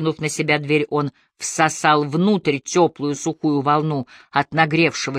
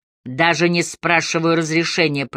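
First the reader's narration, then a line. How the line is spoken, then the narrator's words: Dull flat voice. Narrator (Russian): произнес Хаммер тусклым голосом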